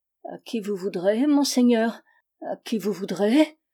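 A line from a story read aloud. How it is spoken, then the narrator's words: Old man stammering. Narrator (French): balbutia le vieillard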